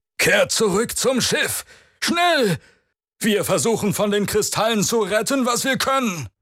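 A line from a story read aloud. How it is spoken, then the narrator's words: Commander shouting orders. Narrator (German): rief der Anführer der Leibwächter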